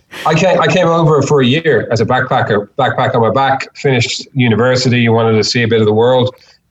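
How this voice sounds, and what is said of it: Irish accent. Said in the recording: “You could probably hear from my accent ... I'm not originally from Australia. I'm originally from Ireland.”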